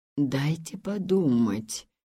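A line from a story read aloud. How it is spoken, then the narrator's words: Muttering father. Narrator (Russian): пробормотал отец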